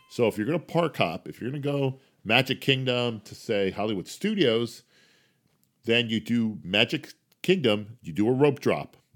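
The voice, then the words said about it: New Jersey accent. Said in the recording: “I keep saying Pac. It's that Jersey accent.”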